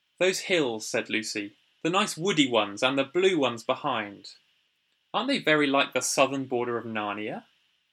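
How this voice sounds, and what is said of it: Audiobook narrator reading voice. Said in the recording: “I'll try and do my best audiobook voice.”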